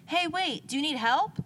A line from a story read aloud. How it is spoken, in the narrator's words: shouted